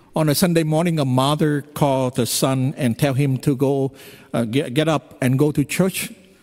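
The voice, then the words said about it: Vietnamese and Californian accented English. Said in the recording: “English mixed with perfect Vietnamese and Californian accent”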